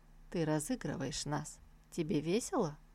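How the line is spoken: Quiet. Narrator (Russian): Наконец он тихо спросил

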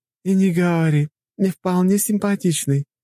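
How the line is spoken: Giggling woman. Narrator (Russian): хихикала женщина в мантии

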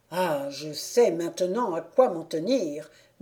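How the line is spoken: Murmuring. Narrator (French): murmura Olborius

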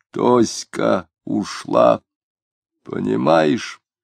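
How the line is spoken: Hoarse, stunned, drunken mutter. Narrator (Russian): полупьяный и, ошеломленно мотая головой, пробормотал хриплым голосом

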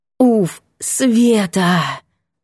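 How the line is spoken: Exhaled. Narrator (Russian): выдохнула

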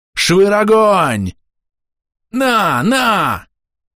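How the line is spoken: Shouting from behind. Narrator (Russian): Закричали у меня из-за спины

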